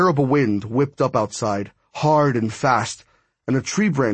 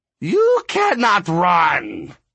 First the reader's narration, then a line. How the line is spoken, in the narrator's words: it said in a high, screechy voice